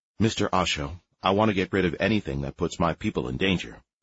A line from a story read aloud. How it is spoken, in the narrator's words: said Fool